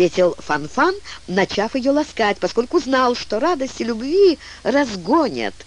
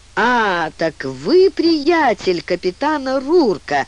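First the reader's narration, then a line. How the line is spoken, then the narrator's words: Drawling fat man. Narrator (Russian): протянул адмирал Бинг, краснолицый толстяк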